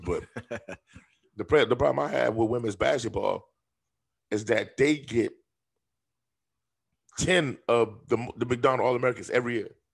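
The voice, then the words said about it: Hoarse, froggy voice. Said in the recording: “excuse my voice, y'all. It's the anesthesia. It's still in me. I'm froggy.”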